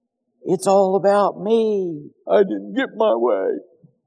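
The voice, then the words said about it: Imitates a pouting grandchild. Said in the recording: “That was my best impression of Kinsley ... I call out my grandkids”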